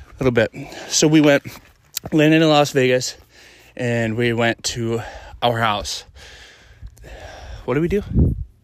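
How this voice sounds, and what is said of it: Out of breath while speaking. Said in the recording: “We're hiking right now, so I'm a little out of breath... It's a little bit of an incline”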